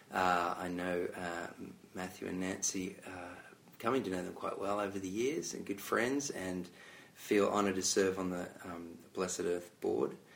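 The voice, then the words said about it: Australian accent. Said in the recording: “have a funny accent because I'm Australian”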